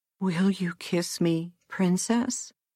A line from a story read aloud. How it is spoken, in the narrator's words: said he feebly